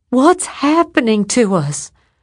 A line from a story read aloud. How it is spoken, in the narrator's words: crying wildly